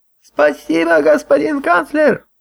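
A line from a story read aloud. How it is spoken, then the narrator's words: Old woman's sudden shout. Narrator (Russian): вдруг закричала какая-то старуха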